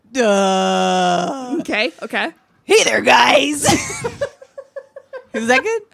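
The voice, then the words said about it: Imitates another person's voice. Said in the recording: “Do you have a good Ryan impression? ... That is the best Ryan impression ... You really nailed it on that one.”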